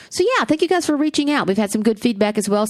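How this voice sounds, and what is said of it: Southern US accent. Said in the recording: “I hope you can understand my Southern accent if you're in other countries. ... Because in my own country, people can't understand me.”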